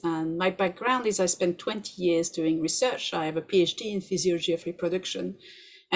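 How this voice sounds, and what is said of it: French accent. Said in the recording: “As you can hear from my accent, I'm French”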